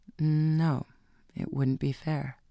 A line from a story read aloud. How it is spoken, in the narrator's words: She said slowly